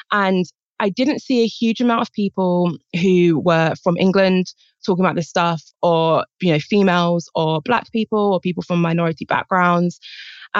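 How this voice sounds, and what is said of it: British accent. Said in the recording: “I'm from Britain, as I'm sure you can guess from my accent.”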